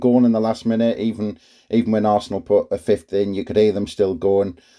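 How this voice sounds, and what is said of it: Hoarse, strained, partly lost voice. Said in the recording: “you might be able to hear in my voice. My voice is still gone from Saturday ... I'm still struggling to speak after that”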